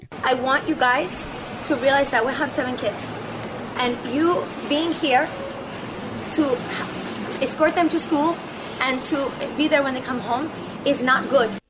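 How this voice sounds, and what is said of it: Fake put-on accent. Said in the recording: “his wife's fake accent ... She's a white chick from Boston.”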